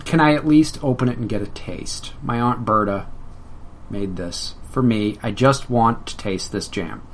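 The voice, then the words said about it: Meek, timid voice. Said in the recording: “in a meek voice,”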